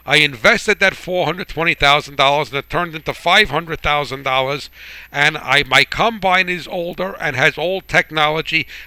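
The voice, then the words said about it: New Jersey accent. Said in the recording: “that guy with the funny accent from New Jersey”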